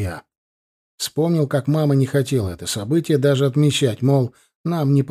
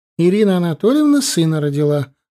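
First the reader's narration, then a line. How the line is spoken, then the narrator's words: Loud joyful announcement. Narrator (Russian): радостно провозгласила она в полный голос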